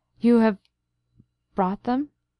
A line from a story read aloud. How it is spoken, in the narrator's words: he faltered